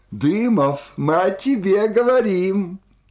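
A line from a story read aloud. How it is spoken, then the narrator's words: Shouting. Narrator (Russian): крикнула она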